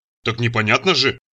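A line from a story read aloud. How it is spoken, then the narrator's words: Grumbled. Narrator (Russian): проворчал Мурзик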